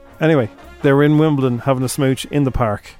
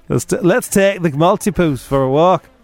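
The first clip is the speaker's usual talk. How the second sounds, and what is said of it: Unidentified put-on accent. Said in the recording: “I don't know what accent that is.”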